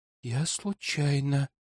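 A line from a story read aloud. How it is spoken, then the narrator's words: Continued whisper. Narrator (Russian): продолжила шептать Илона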